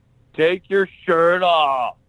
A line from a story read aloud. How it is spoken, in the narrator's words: some jackass redneck in the front row just yells out